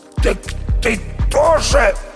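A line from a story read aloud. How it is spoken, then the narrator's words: Hoarse wheeze. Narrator (Russian): прохрипел Никита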